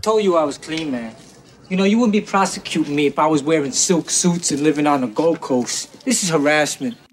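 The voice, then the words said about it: Weird, unconvincing put-on accent. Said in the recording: “He's doing a weird accent in this thing. ... he couldn't quite get there.”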